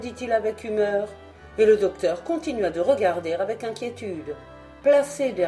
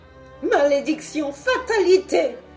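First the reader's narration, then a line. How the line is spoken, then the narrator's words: Exclaimed. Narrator (French): s'écria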